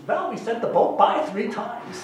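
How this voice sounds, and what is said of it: Put-on Jewish accent. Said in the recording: “sends a response to him in a Jewish accent.”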